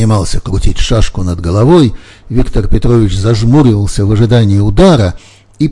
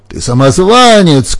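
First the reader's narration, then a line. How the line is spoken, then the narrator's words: Ghostly shouting. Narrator (Russian): кричал призрак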